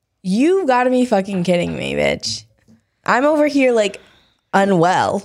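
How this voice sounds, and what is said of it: Drunk, slurred speech. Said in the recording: “I'm slurring my words ... is drunk, FYI.”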